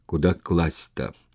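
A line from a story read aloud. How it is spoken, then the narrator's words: Breathless, barely audible question. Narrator (Russian): Караулов задыхаясь, еле слышно спросил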